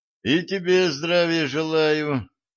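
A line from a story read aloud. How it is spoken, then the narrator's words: Vague snort. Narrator (Russian): неопределенно хмыкнул Семен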